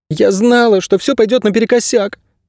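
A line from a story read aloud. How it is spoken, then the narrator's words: Sobbing. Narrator (Russian): всхлипнула Мирта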